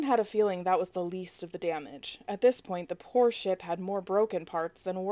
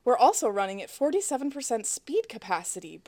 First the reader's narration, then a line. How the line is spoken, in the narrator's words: Bro added cheerfully